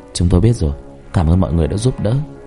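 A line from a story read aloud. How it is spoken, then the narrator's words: Soft reply. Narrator (Vietnamese): Hào khẽ trả lời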